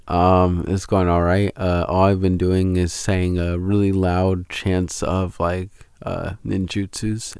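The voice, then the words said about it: Low, strained recovering voice. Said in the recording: “the reason why I'm speaking so low today is because my voice is still recovering”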